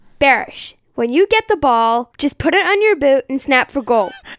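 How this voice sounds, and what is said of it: Attempted American accent. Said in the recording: “going to try. I think her accent will be better because she watches a lot of American television ... you can critique our American accents”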